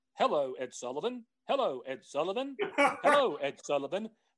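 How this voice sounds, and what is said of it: Talking-bird voice, British-like accent. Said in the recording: “It's remarkably like your British accent, actually. ... all of my accents essentially are the kind of blend together. ... there's really no difference between Irish, English, a minor bird, a parrot.”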